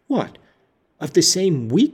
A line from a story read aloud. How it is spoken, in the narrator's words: she exclaimed